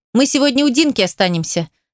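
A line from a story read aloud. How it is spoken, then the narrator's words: Rapid chatter. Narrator (Russian): тараторю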